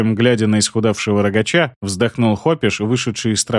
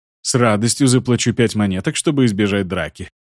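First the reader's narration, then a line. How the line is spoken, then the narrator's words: Snorting smirk. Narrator (Russian): Хмыкнул Гиена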